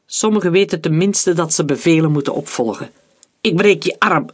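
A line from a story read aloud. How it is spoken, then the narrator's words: Angry outburst shout. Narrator (Dutch): riep Leopold, en hij schrok van zijn eigen woedeuitbarsting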